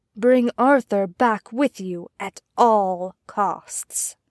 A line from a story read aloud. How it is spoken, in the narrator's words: It was his king, who whispered to him